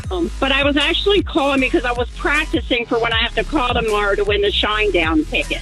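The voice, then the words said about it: Baltimore accent. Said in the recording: “You sound like you're from Baltimore. ... I get picked on for my accent”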